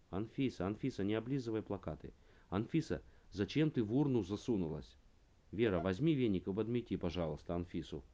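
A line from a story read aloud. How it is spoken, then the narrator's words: Father's sudden shout. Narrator (Russian): Вдруг папа закричал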